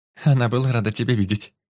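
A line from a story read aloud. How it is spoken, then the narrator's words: Giggled. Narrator (Russian): хихикнула Сильвана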